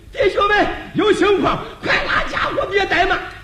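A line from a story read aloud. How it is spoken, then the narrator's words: Hurried loud shout. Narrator (Chinese): 忙往车上高声喊了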